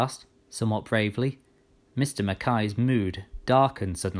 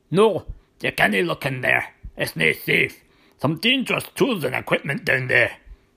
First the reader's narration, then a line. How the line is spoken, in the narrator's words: he answered suddenly and sharply, almost shouting